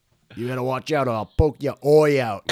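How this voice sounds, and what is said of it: Put-on accent, 'I' said as 'oi'. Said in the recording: “they pronounce all their I's like an oi”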